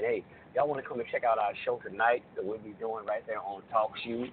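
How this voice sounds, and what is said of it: Hoarse voice. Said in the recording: “I'm a little hoarse. Got a little horse in here.”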